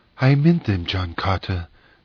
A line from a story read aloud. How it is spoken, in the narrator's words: she whispered